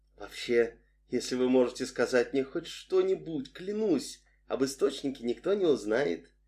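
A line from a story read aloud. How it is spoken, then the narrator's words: Quiet. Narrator (Russian): тихо сказала Адриен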